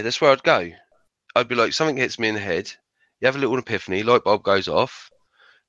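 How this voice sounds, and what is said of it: Strained voice, losing it. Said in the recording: “I'm losing my voice again”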